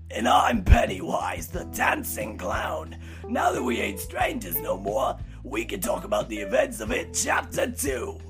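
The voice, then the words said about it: Creepy clown character voice. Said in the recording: “that's the only time I'm ever going to do that voice”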